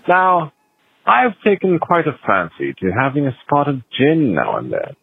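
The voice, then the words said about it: Fake British accent. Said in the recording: “stop doing the fake British accent”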